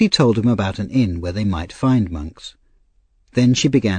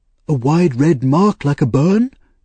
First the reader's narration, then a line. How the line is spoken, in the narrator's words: cried Mr